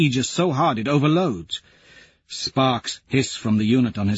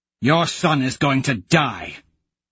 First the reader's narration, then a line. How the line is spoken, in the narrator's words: say savagely